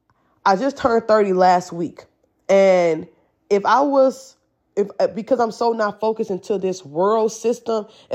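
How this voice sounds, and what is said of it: Slightly changed voice from cold. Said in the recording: “I'm coming over a cold, so my voice is a little different.”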